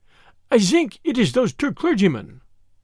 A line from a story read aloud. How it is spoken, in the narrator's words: he stuttered eagerly